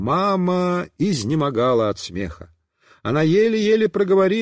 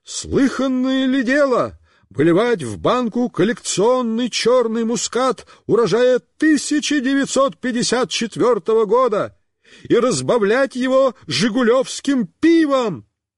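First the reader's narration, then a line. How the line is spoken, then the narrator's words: Shouting. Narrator (Russian): Он кричал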